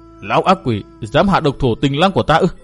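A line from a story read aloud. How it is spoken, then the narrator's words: Hissing through teeth. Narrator (Vietnamese): Phạm Nương Nương rít qua kẽ răng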